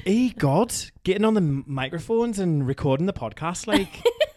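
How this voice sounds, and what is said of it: Weak attempt at a Geordie accent. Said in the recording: “Can you still do the Geordie? ... Not very well. ... So that's the Newcastle accent. ... Yeah, the Geordie accent.”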